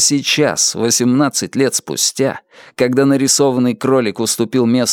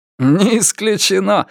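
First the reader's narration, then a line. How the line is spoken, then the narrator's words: Answer then loud laughter. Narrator (Russian): ответил он и снова расхохотался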